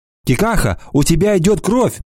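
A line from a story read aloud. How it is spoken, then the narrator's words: Scream. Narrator (Russian): закричала Анана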